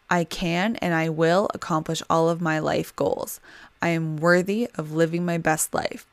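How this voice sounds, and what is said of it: Tired, strained, fading voice. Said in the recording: “My mouth is so dry. ... My voice is going. I am tired”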